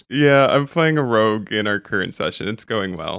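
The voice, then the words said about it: Hoarse, strained voice. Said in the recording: “my voice sounds a little hoarse... I shot my voice”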